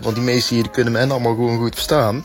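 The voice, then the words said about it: Brabant Dutch accent. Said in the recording (Dutch): “Oh, mooi accent hoor, ik hou wel van Brabant.”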